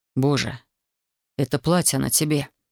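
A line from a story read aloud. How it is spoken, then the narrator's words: Breathed out. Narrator (Russian): выдохнул Александр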